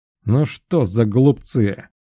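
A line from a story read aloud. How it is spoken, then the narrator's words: Irritated, openly angry grumbling. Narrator (Russian): Раздраженно ворча Аэлтион, даже не пытаясь скрывать свои злости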